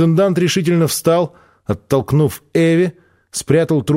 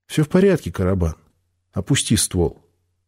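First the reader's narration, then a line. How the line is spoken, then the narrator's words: Calm, smiling. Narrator (Russian): Спокойно улыбнувшись, Брага сказал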